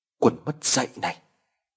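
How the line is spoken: Stammering. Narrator (Vietnamese): Gã lắp bắp

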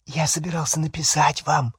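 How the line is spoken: Whispering. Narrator (Russian): зашептал

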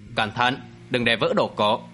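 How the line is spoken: Raised voice. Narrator (Vietnamese): có người cao giọng nói

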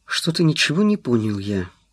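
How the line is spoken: Gloomy. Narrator (Russian): мрачно сказал он

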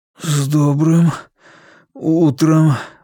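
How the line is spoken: Strained, effortful words. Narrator (Russian): выдавил, попытавшись приподняться на локтях

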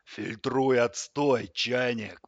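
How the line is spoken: Growling. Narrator (Russian): прорычал кран

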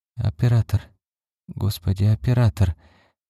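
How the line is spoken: Hoarse whisper. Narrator (Russian): хрипло шептала Карлотта

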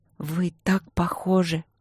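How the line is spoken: Barely audible. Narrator (Russian): Едва слышно сказала

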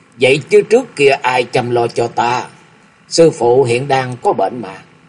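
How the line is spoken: Smiling. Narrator (Vietnamese): Tuệ Quang Thượng Nhân mỉm cười

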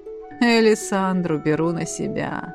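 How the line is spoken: Purring. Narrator (Russian): мурлыкнул Эдмунд

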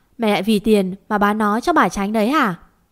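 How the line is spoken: Angry question. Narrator (Vietnamese): Cậu cau mày tỏ ra tức giận hỏi bà

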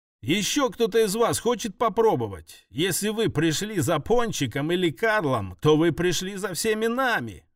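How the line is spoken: Shouted. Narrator (Russian): выкрикнула Элли

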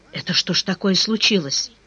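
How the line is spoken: Quiet, caretaker. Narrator (Russian): тихо спросил дворник

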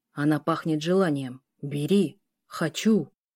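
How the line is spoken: Beast growling. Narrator (Russian): рычал зверь

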